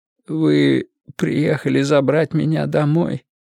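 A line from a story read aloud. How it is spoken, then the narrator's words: Strained, choked voice. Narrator (Russian): сдавленным голосом спросил у Мэтью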